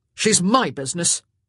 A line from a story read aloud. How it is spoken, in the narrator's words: Simon snapped